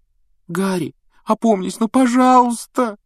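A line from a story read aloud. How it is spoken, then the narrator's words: Tearful pleading. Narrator (Russian): со слезами взмолилась Гермиона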